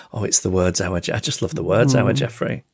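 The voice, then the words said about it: Imitates another person's voice. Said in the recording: “I sound like my mum.”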